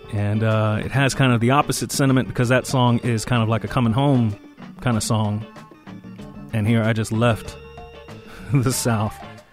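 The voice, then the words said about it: Slight Southern accent. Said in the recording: “You may even notice a little bit more of a Southern accent when I'm talking to you today.”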